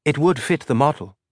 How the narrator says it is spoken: she murmured

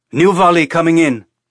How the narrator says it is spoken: Casper shouted

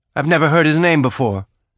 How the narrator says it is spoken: Drummer said

